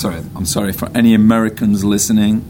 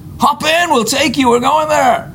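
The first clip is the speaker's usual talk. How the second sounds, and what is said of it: Put-on American accent. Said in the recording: “That's my best American accent.”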